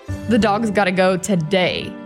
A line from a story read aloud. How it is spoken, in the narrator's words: she said with a chuckle